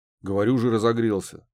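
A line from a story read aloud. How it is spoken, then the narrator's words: Pleased snort. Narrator (Russian): довольно хмыкнул Муха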